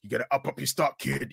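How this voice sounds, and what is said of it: Vince McMahon impression. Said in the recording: “That wasn't my Booker impression. ... That was Vince.”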